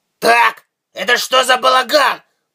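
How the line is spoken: Growled. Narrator (Russian): прорычал Тайкус

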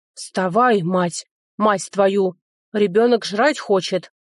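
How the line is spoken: Growled. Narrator (Russian): прорычал лысый ежик

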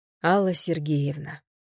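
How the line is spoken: Tired. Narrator (Russian): сказала я устало

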